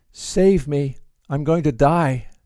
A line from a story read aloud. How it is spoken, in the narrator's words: In desperation, he called out to Christ